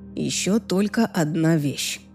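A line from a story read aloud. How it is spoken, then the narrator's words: Soft. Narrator (Russian): мягко произнес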